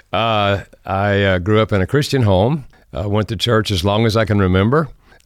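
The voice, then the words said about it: Southern American accent. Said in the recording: “I have a Southern American accent.”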